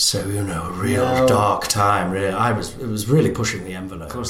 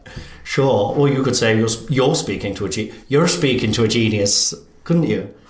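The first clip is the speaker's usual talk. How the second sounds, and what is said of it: Attempted Irish accent. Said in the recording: “were you doing the Irish accent? ... I was attempting it.”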